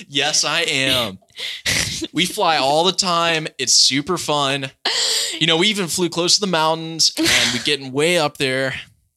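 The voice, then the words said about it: Laid-back Californian accent impression. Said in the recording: “that's my best Cali impression I can do ... He was like so laid back”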